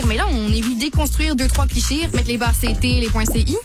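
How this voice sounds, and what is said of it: Polished Quebec-French blended accent. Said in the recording (French): “accent de français bien parlé... il y a comme la petite coche de coudon. C'est-tu un accent français québécois ou ton accent québéco-français?”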